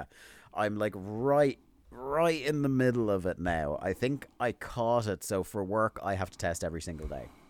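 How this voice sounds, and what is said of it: Sick, slightly off voice. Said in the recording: “I got COVID ... my voice sounds a little off”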